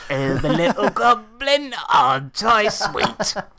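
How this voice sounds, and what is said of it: Creepy goblin character voice. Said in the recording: “I've gone into a creepy voice. ... Oh, it's a bit creepy.”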